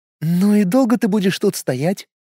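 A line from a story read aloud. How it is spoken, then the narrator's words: Gentle smiling question. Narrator (Russian): спросила она и ласково улыбнулась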